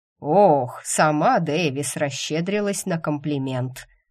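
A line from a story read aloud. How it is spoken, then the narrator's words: Wry snort. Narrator (Russian): хмыкнул он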